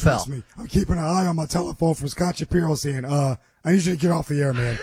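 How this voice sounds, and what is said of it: Hoarse, laryngitis-affected voice. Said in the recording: “Have you been to the doctor? Is this laryngitis? ... I have to adjust to how your voice is sounding.”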